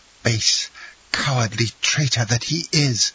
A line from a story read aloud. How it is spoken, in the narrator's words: exclaimed Aide, her eyes flashing with rage